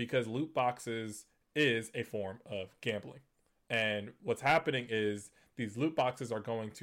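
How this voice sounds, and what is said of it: Usual voice. Nothing is said of it.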